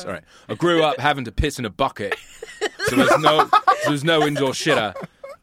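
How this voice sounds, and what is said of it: Attempted Birmingham (Brummie) English accent. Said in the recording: “I'm gonna try this in a Brummie accent, and then I'm gonna bail on it within 3 seconds.”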